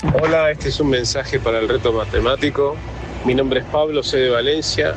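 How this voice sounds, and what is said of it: Argentine or Uruguayan Spanish accent. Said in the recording (Spanish): “con acento argentino ... Bueno, uruguayo”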